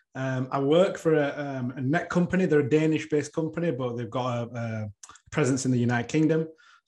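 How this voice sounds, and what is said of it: Northern English accent. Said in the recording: “You couldn't tell by the accent, from the north of the UK.”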